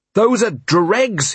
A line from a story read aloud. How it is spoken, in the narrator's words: he shouted